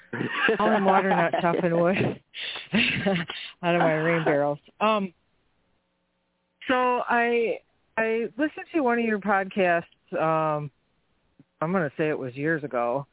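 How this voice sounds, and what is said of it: Out of breath. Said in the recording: “I'm sorry I'm out of breath, I'm hauling water.”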